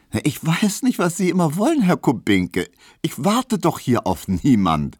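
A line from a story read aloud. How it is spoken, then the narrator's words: Laughing reply. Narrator (German): versetzte Hedwig lachend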